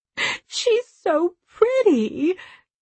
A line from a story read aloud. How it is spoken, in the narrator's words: said in a mournful voice